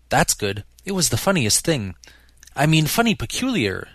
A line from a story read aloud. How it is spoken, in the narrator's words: she clarified hastily